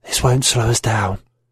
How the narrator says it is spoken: She smiled, a red evil crescent, and whispered

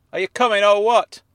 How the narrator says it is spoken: hollered

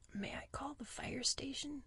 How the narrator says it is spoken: I asked in a low voice

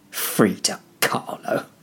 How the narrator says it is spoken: muttered to himself

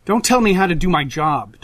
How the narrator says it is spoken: Dogface snaps

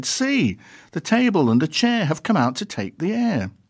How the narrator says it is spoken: everybody cried

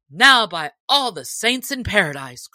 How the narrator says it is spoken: cried the sheriff

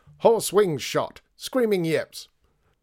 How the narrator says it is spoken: he bellowed

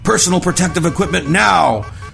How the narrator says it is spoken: Zimmerman shouted over the alarms

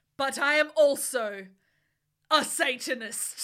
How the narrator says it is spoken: Hagrid paused angrily

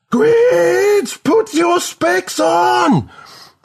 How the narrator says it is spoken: Melody screams again

